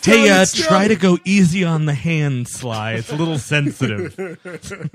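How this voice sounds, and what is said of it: Comic Jesus Christ character voice. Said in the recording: “this is my Jesus Christ impression.”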